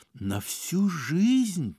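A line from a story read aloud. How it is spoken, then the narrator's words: Whispered. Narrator (Russian): прошептал Ипполит Матвеевич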